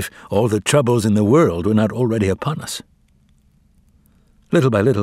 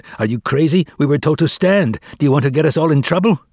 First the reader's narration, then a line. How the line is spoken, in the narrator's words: Others shouted